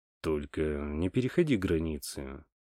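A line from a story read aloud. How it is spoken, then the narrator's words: Soft but insistent request. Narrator (Russian): мягко, но настойчиво попросил Том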